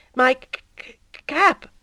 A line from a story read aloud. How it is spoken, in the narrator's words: timidly said the new fellow